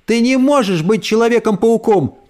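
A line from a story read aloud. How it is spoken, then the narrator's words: Boy shouting. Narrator (Russian): крикнул мальчик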